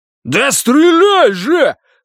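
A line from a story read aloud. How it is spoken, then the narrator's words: Roaring. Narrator (Russian): взревел Рогер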